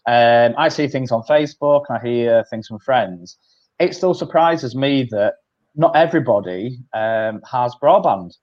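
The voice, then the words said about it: Yorkshire accent. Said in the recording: “I'm from Halifax, North Yorkshire, you can probably tell from the accent.”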